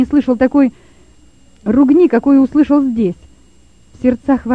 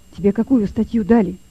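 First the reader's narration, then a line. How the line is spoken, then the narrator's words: Quiet, into ear. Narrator (Russian): тихо сказал Лёве на ухо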